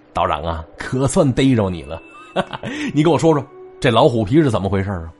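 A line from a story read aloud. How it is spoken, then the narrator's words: Laughing. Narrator (Chinese): 老王……笑着说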